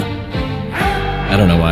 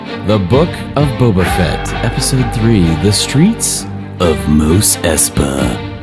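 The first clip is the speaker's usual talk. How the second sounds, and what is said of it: Darker announcer voice. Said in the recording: “Your announcer voice, I like it. ... Sounded kind of sounded kind of darker, I guess.”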